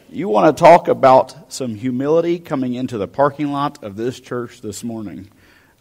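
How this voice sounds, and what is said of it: Loud voice, strong Southern drawl. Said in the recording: “I'm real loud. And I've got a bad southern drawl”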